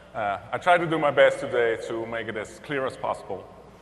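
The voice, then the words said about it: Dutch accent in English. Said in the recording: “also from the Netherlands, as you can hear by my accent.”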